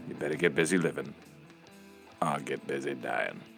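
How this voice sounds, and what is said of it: Imitates another person's voice. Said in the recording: “It's not really Morgan Freeman ... what's the deal with your voice, man?”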